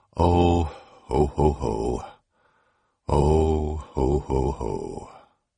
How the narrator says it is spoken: A painful, reflective sighing

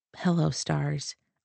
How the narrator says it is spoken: I whispered

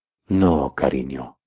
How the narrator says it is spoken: I huskily stated

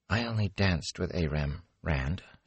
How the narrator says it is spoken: she said softly

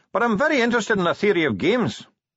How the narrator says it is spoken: said the dwarf cheerfully

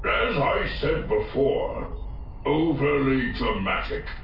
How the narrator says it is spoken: Dyloth growled

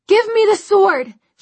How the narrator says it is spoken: she cried, her voice almost drowned out by the clang of metal on metal

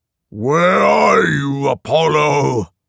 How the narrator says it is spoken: Python roared

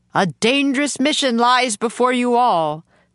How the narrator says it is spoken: the man shouted above the wind

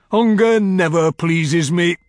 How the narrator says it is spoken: he roared

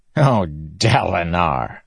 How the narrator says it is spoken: Sadeas said, chuckling

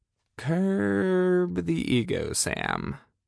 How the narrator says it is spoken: I muttered to myself

